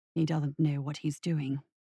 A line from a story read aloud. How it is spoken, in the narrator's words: whispered Krause